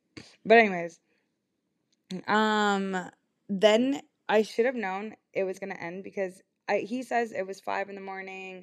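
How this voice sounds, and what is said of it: Voice sounding sick and rough. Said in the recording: “I'm also getting sick, so that's why my voice sounds even worse today.”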